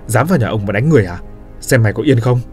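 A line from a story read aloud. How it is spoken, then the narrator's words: Old man's angry shout. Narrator (Vietnamese): tiếng quát của lão Kha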